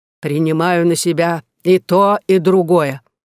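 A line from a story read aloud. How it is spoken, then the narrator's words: Plain. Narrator (Russian): сказала Магдалена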